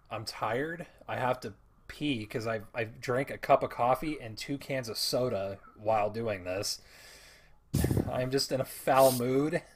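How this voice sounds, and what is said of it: Hoarse, worn-out voice. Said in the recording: “My voice is gone.”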